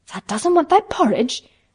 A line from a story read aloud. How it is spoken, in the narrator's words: Martha exclaimed incredulously